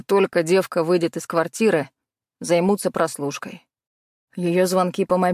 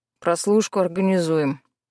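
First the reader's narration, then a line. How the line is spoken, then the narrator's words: Gruff mutter. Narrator (Russian): буркнул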